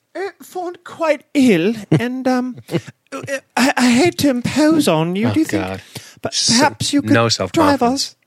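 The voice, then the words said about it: Put-on posh British accent. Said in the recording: “I don't know your accents ... This is wicked British shit.”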